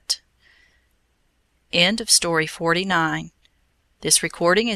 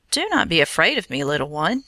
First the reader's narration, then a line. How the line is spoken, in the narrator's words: he said kindly